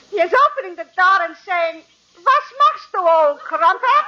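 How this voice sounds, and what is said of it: Put-on English accent. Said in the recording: “He is making with an English accent.”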